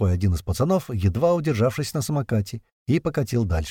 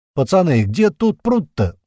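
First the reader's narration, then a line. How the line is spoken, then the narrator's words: Hurried shout. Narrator (Russian): успел крикнуть большой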